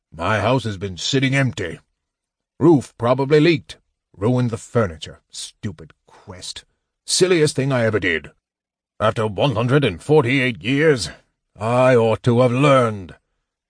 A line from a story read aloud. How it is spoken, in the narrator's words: He grumbled loudly